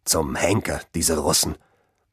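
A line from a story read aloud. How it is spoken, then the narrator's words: Muttered growl. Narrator (German): knurrte ein Deutscher vor sich hin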